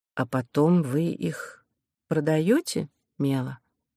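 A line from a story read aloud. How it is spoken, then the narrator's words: Soft, smooth-talking. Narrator (Russian): мягко стелила Кора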